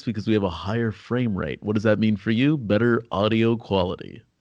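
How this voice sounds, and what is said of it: Announcer-style radio voice. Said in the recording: “Do your radio voice to sign out. ... So this is our radio voice”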